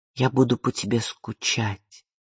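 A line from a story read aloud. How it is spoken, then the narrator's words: Quiet reply. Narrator (Russian): тихо ответила Изабель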